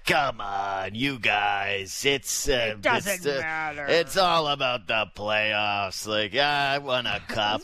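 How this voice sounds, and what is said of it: Impression of Kipper. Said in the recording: “That's pretty good impersonation. ... Oh, Kipper.”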